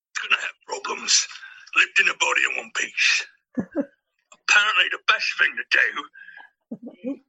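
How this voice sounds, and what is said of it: Impression of a film character. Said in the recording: “do a really good Bricktop impression”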